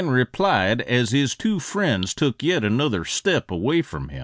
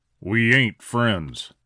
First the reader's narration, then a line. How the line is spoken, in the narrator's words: Clint stated coldly